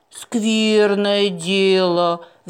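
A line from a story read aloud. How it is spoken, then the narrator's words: Sighing. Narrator (Russian): вздохнула Розали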